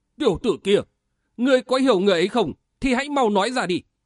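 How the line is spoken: Laughing loudly. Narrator (Vietnamese): Nam Sơn Nhất Nho cười to một tiếng nói

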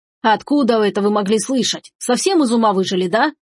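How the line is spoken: Snapped. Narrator (Russian): огрызнулся Марсо

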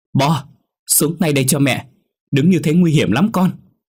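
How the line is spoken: Mother shouting. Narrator (Vietnamese): Chị Thanh hét lên

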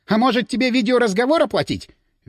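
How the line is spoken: Shrill objection. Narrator (Russian): Визгливо возразила она

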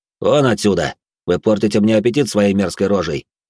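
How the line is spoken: Cold tone. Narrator (Russian): холодным тоном произнес я

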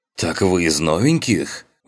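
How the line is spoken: Surprised exclamation. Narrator (Russian): удивленно воскликнул рейнджер

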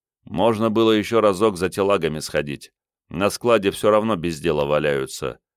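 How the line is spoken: Grumbling. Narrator (Russian): проворчал Игорь

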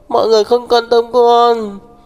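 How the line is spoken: Sobbing. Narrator (Vietnamese): Đường Đường nức nở nói

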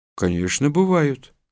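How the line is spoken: Calm. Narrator (Russian): спокойно ответил Лобановский

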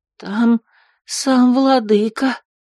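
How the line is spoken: Tragic whisper. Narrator (Russian): трагическим голосом зашептала она

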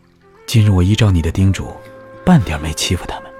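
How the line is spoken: Deep, solemn. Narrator (Chinese): 萧迟也沉声说

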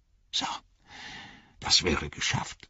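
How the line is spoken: Quiet. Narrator (German): sagte leise

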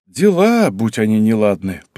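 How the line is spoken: Exaggerated sigh. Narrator (Russian): показательно вздохнул Юшимицу

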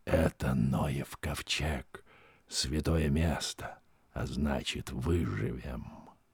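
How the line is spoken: Whispering. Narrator (Russian): Штурман другу своему Пахту он шепнул

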